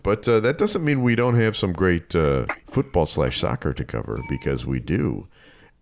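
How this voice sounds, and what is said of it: Nasal, congested, weaker voice. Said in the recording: “Got a little bit of a. little bit of a uh, allergy uh, breakout here ... sounding a little uh, nasally today ... You, don't have your strong as usual radio voice ... The pipes are not quite there today”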